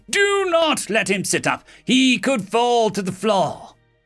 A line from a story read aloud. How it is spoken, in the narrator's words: Nurse Prime thundered with authority